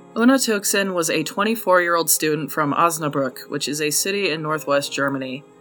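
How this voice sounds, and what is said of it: Thick American Utah accent. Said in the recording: “my super thick American accent? The one I try so hard to downplay ... my Utah accent is too thick”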